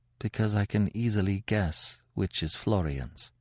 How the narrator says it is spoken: bashfully and murmured, in a very low voice

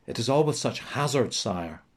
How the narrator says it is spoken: O'Sullivan replied

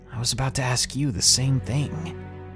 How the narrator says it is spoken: Slightly confused, I whispered right back to him in the same tone

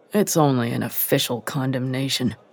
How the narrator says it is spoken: muttered Yoshiro Fujioka, a young MP from Niigata

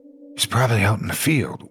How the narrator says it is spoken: whispered

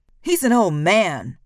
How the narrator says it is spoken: Reebok shouts

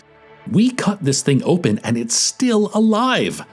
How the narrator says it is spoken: Lim shrieked

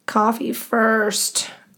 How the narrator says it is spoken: groaned Sarah

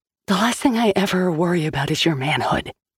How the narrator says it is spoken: she whispered fiercely

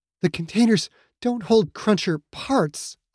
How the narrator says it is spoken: Aya said, that fear making her voice tremble

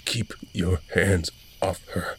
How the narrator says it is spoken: I stammered

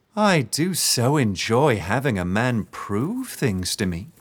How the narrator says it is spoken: she said, her voice sickly sweet

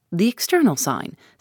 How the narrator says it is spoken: said Poirot

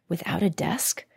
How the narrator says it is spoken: whispered Ilka anxiously

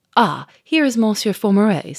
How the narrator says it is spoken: said the inspector cheerfully

